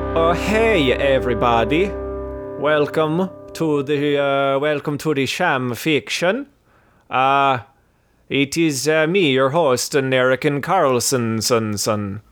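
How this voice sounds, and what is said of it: Put-on Swedish accent. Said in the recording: “my Swedish impression. It's a very accurate Swedish accent.”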